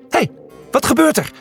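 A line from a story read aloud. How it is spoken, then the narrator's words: Shout. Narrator (Dutch): schreeuwde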